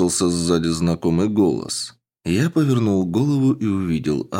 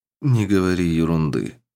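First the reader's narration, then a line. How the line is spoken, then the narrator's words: Calm. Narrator (Russian): спокойно ответил я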